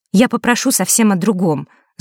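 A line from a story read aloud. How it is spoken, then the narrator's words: Angry. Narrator (Russian): зло сказала Василиса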